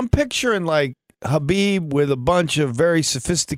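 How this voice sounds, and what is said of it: Usual voice. Nothing is said of it.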